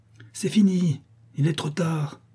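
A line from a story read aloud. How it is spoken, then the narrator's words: Despairing cry. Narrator (French): s'écria la Chouette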